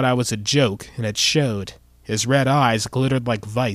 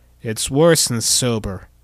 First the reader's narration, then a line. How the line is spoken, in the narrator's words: I moaned